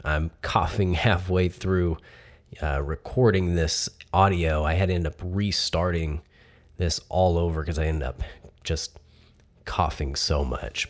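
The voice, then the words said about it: Sick, terrible-sounding voice. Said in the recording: “I ended up catching bronchitis, and as you can tell, my voice sounds definitely terrible”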